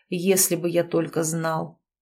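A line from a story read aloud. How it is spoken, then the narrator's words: Hoarse exhale. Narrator (Russian): выдохнул он осипшим голосом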